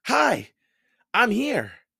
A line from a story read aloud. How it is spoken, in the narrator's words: Annie sputtered